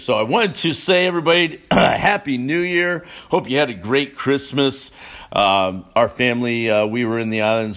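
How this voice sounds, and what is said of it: Scratchy, slightly hoarse voice. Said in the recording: “my voice sounds a little scratchy this morning”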